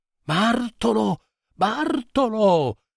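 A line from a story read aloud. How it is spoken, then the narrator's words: Terrified shout. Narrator (Italian): grido, atterrito, nel buio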